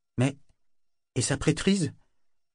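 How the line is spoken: Small-voiced objection. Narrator (French): objecta Kefria d'une petite voix

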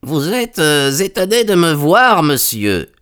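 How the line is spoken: Strangely croaking. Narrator (French): dit-il d'une voix étrangement coassante

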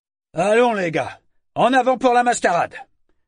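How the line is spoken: Shouted. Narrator (French): cria-t-il

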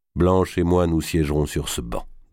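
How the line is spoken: Plain. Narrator (French): dit-il

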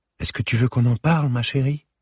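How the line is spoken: Timid question. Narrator (French): demanda timidement Camille

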